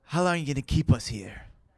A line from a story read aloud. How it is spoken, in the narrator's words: Joe asked hotly